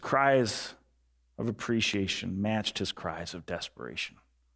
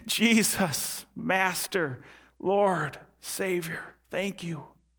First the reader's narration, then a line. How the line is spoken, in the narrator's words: He cries out in gratitude and thanksgiving